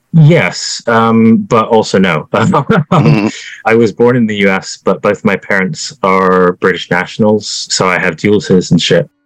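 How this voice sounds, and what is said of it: Slight British-tinged accent. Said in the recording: “do I hear an accent? Are you from the U.S.?”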